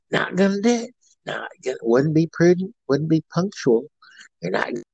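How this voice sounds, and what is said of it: Imitates another person's voice. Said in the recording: “George Bush impersonation via Dana Carvey ... That's my Dana Carvey impersonation”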